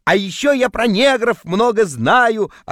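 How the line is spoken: Yelling in sleep. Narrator (Russian): орал я во сне

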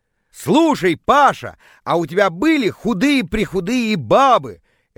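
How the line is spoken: Deliberately loud. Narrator (Russian): я специально начал очень громко

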